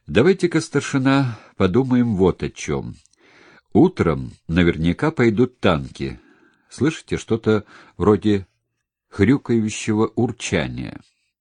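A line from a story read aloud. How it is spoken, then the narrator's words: Businesslike stern, throat-clearing. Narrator (Russian): Чтобы скрыть смущение, Ларин откашлялся и деловито строго сказал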